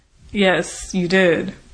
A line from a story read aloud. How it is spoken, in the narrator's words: agreed Devlin dryly